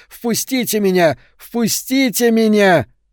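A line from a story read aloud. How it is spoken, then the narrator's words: Shouting. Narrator (Russian): Гаррисон закричал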